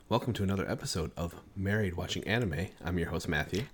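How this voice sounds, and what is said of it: Talking quietly. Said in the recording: “You're talking so quiet.”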